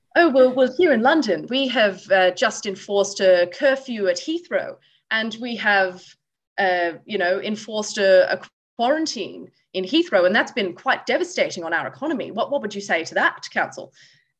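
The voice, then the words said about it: Deliberately poor put-on British accent. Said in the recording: “this is going to be a very terrible British accent, but I'm going to give it a go anyway”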